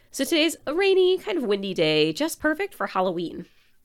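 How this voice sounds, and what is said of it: Congested head-cold voice. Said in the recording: “as you can probably hear in my voice, I am a bit under the weather with a head cold”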